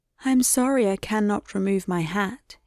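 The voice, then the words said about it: Very sweet voice. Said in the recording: “in a very sweet voice,”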